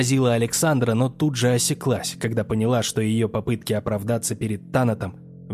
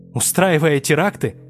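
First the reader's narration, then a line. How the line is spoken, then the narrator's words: Scoffing snort. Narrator (Russian): фыркнула Александра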